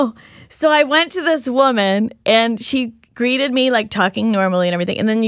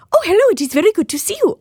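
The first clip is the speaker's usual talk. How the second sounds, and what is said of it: Vague put-on foreign accent. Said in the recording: “now I'm talking in this accent ... she started talking in this sort of, you know, non-discriminate accent.”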